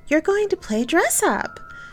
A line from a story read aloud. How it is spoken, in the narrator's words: exclaimed excitedly